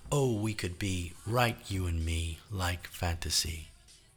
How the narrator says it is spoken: Over the rumble of the engine, Otto heard someone say

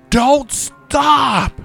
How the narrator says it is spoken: screamed

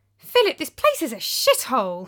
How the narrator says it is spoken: I exclaimed

